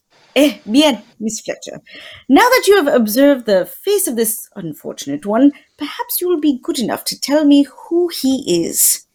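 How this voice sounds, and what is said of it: Put-on French accent that slips. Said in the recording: “you fell out of that accent faster than Carrie Fisher in Star Wars”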